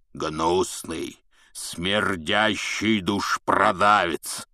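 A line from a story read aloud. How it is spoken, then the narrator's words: Loud roar. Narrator (Russian): прорычал Хагрид на весь бар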